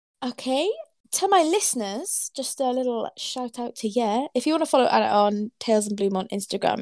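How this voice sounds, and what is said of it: Welsh accent. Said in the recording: “my Welsh accent coming through”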